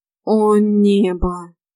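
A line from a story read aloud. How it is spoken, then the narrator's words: Groan. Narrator (Russian): простонала Нейна Деяна, перебив затянувшееся разглагольствование мужа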